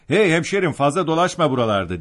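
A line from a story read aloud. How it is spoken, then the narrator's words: Group shouting. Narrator (Turkish): diye bağırmaya başladılar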